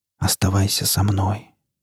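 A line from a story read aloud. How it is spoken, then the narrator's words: Whispered. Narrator (Russian): прошептал Борг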